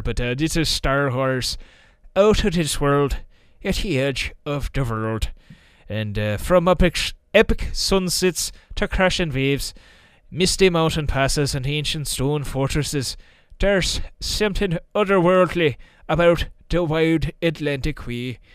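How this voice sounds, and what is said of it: Put-on Irish accent. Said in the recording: “put on my best Irish voice”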